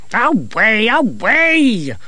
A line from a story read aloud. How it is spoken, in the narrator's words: shouted, trembling